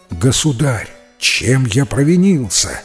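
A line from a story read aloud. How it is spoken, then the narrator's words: Exclaimed. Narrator (Russian): воскликнул Салю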